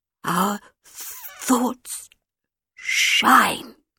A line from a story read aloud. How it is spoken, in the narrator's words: she rasped